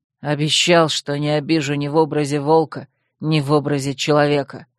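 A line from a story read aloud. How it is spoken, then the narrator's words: Growling. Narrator (Russian): прорычал он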